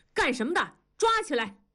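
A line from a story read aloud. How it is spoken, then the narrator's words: Loud barked command. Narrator (Chinese): 为首的红卫兵大声地喝道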